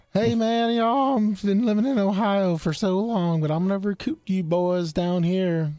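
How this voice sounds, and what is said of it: Exaggerated fake Southern accent. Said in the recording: “his fake Southern accent”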